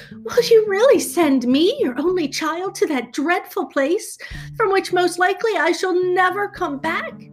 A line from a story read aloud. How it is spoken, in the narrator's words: burst into tears and sobbed out